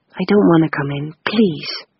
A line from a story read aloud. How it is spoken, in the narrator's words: Stephen whispered